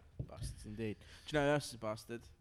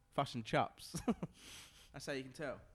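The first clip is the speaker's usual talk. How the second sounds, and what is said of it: Put-on New Zealand accent. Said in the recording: “My Kiwi accent. My Kiwi accent.”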